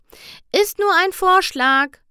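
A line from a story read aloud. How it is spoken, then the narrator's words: Called out. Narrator (German): rief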